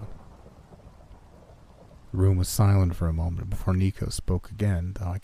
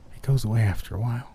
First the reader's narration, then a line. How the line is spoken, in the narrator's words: whispered